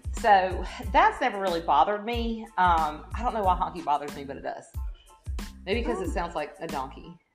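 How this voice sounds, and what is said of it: Southern country accent. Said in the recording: “I'm from the South. I'm definitely not a redneck, but I am obviously very country. You can tell by my accent.”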